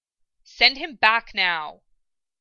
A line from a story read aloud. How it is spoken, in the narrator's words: Ed snapped, his words strong and fierce